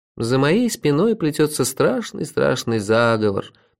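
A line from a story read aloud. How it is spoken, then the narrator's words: Purring. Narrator (Russian): промурлыкал я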